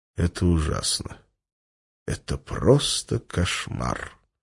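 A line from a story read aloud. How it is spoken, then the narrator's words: Quiet. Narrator (Russian): негромко сказал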